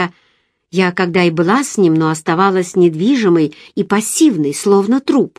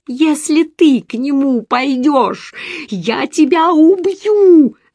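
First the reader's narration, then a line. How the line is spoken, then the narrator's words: Shouting. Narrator (Russian): закричала я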